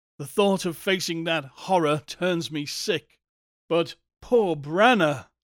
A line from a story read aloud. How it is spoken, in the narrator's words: choked again